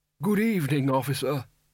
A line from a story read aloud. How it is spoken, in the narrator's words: its wearer croaked